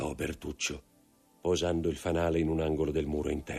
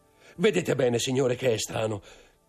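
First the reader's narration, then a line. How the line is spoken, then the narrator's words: Steward shouting. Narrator (Italian): gridò l'intendente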